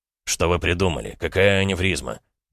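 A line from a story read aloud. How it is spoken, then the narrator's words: Grumbling. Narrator (Russian): пробурчал хирург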